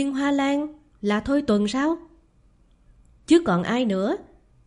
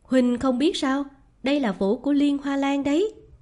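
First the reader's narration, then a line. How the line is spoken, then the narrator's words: Meaningful smiling tone. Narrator (Vietnamese): Người kia mỉm cười đầy ý nhị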